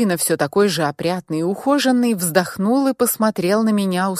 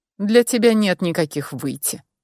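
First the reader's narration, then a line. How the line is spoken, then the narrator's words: Cold reply. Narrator (Russian): холодно ответил мой собеседник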